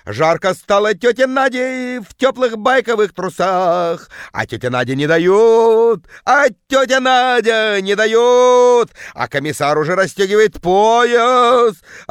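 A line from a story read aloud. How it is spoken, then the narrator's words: Yelling in terrible bass. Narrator (Russian): орала тетка жутким басом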